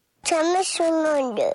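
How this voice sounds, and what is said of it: Heavy vocal fry, demonic croak. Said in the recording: “That vocal fry on this bitch. She becomes the demon.”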